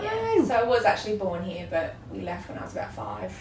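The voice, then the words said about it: Australian accent. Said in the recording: “from your accent that you're potentially not from round here ... I'm Australian.”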